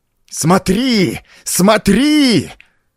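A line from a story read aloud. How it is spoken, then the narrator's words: Shrieking devilish howl. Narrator (Russian): Завопил, и голос его был подобен визгу дьявола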